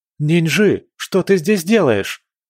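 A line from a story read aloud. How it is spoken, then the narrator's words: Shout. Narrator (Russian): он крикнул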